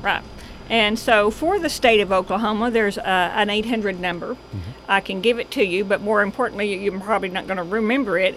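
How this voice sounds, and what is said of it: Speaks with a regional accent. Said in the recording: “because of my accent, I'm going to spell that”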